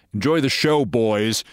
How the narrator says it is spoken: I barely managed to shout

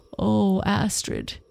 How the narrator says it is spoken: he groaned

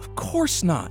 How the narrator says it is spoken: she said warmly

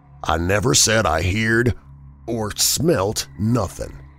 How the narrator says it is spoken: he said slowly and emphatically, in an oddly altered voice that conveyed somehow a touch of defiance

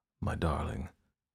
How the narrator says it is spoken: Louis whispered

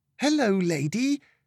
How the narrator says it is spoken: squealed in delight as she was nearly bowled over

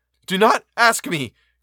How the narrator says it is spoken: cried I

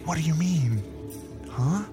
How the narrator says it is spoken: whispered back

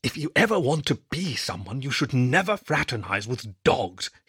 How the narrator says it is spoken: he whispered

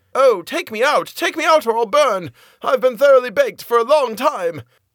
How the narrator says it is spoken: the bread cried again

